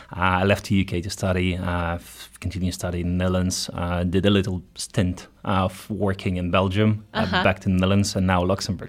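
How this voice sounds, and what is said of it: Ukrainian accent in English. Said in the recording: “You've got an interesting accent that some people may or may not recognize ... I'm Ukrainian originally.”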